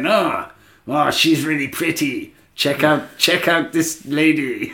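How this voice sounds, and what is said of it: Put-on Mexican accent. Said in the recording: “What a Mexican accent that is. ... I don't even really know that I was trying a Mexican accent.”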